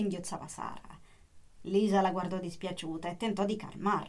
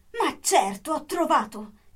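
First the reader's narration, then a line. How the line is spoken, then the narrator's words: Sudden exclamation. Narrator (Italian): Improvvisamente esclamò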